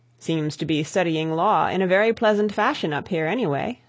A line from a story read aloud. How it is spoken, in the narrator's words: said Rathbury